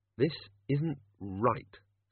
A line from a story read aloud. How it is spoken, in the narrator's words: said Susan quietly